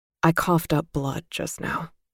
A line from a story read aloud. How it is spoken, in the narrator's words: he told me quietly